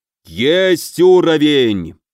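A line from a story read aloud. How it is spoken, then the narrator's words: Triumphant roar. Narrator (Russian): победно взревел Илья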